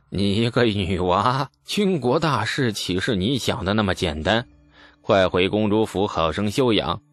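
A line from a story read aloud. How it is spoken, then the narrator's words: Sighing. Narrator (Chinese): 叹了口气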